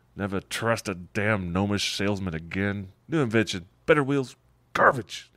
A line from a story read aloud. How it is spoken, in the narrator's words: grumbles